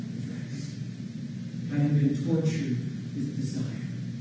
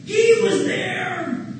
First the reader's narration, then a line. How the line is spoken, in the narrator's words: One woman cried out